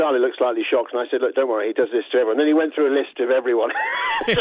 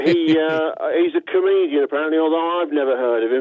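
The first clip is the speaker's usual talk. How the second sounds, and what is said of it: Impression of the club chairman. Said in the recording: “This is a good impression, by the way.”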